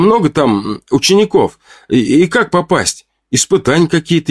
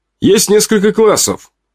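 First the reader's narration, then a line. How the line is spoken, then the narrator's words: Plain. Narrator (Russian): ответил Ваня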